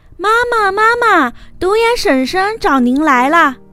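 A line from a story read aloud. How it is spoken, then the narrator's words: Loud calling out. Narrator (Chinese): 小羚羊 … 高声叫道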